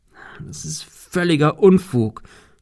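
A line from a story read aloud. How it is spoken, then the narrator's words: Stammered. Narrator (German): stammelte er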